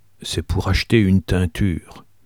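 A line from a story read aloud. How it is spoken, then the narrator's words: Murmured. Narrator (French): murmura-t-il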